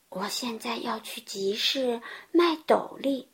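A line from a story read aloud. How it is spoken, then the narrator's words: Old man muttering to himself. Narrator (Chinese): 老爷爷低声的自言自语的说道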